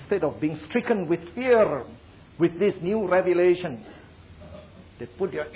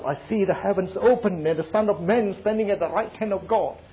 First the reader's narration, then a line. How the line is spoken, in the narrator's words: he just cried out